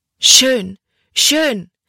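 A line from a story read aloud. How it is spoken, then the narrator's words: Heavily accented call. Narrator (German): rief sie mit einem starken Akzent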